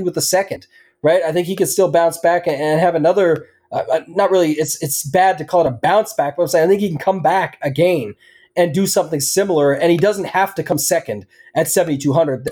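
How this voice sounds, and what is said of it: Canadian accent. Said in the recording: “The Canadian accent will roll through”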